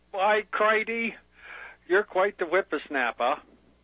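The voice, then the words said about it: Put-on Northern New Hampshire accent. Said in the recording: “Can I talk Northern New Hampshire at you?”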